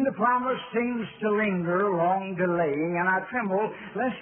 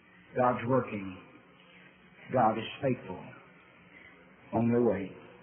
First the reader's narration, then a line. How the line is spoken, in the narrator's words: gentle whisper ever pleading